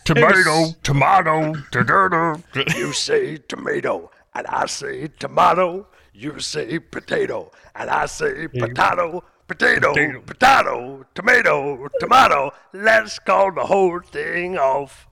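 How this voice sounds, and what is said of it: Imitates another person's singing voice. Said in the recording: “The Louis Armstrong you did a couple weeks ago was a 10 out of 10. ... best impression you've ever done. ... that was so good.”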